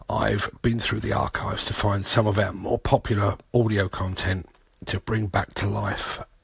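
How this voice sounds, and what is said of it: Voice affected by a cold. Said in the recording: “I've got a cold um, and a bit of a sore throat ... wheezing ... hope I've got my voice back properly”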